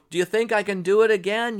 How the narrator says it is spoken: he shouted out

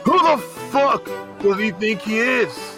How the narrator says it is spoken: He yells

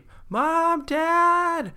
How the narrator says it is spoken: cried Hadley

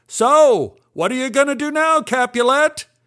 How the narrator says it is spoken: Milton yelled out

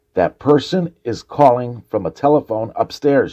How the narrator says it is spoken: said

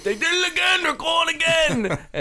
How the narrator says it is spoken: He'd be yelling to his wife

